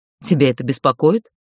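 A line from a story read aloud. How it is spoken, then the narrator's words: Snort. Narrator (Russian): фыркнула я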